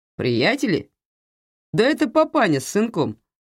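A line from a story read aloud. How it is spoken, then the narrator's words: Loud laughter. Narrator (Russian): расхохотался Мигель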